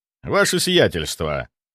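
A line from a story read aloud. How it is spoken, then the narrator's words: Calm. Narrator (Russian): сказал я спокойно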